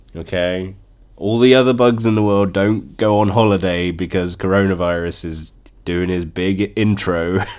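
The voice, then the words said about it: Congested, bunged-up nasal voice. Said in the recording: “I just have a bunged up nose. I have a runny nose ... I sound a bit bunged up, because I have a cold”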